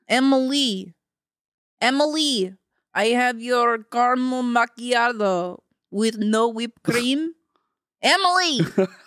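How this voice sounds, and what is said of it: Put-on Russian accent. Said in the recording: “Accent Russian. ... We're gonna do our best here. No, if we botch it, sorry. ... So we're two Starbucks, Russian Starbucks workers.”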